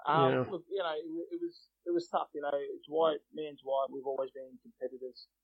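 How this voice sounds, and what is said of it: Emotional, choked-up voice. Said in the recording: “I'm getting a little bit emotional.”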